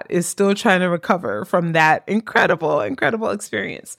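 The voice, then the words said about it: Hoarse, strained voice. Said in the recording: “If you hear me losing my voice ... my voice is a little bit shot”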